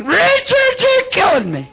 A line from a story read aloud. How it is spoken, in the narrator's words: old Wayne was hollering